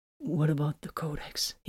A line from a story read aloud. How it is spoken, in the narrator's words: He whispered, feeling dizzy